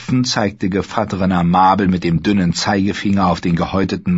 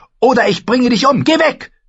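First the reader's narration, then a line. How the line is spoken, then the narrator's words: Screaming. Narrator (German): schrie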